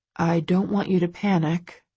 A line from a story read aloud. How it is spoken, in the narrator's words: he says calmly